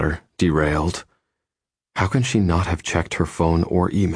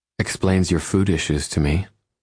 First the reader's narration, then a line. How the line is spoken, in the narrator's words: she says, her tone gentle, and if I'm not mistaken, pitying, too